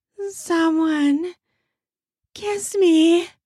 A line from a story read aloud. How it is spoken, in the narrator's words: I moan